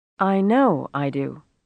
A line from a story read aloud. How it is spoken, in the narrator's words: Rosie replied stiffly